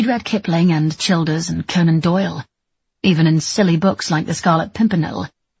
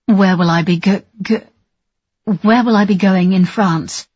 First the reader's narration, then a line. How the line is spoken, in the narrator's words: stuttering